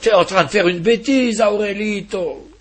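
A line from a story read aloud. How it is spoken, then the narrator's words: Exclaiming. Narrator (French): s'écria-t-il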